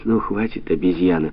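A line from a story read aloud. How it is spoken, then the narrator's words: Tender. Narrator (Russian): нежно сказал Павлик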